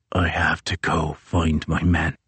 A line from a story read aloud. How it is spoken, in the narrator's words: whispers Crozier